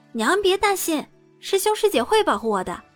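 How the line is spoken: Giggling. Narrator (Chinese): 陆子霖 嘻嘻一笑

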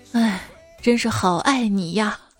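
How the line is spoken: Mother's long sigh. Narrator (Chinese): 它妈妈长叹了一口气说

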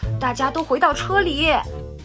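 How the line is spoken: Shouting. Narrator (Chinese): 博士喊道

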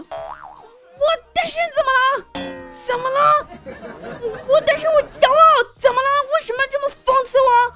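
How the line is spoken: Tearful roaring. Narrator (Chinese): 我鼻涕一把一泪，一把鼻涕一把泪的，然后吼着对我妈说

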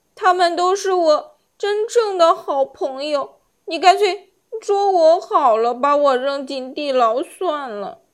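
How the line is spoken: Sobbing. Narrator (Chinese): 小樱桃抽泣着说

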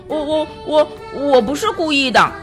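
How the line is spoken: Stammering. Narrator (Chinese): 威利结结巴巴地说

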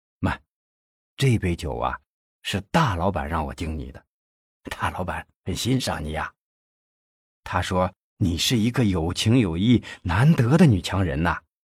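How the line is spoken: Low voice. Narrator (Chinese): 费庆奇低声的说

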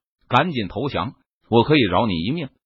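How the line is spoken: Angry rebuke. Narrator (Chinese): 弗雷明……怒斥道

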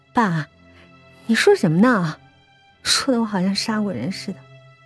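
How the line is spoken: Forced smile asking. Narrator (Chinese): 我挤出一个笑脸问

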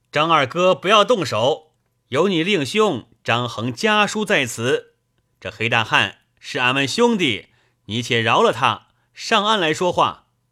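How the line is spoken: Loud call. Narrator (Chinese): 便向岸边高声叫道

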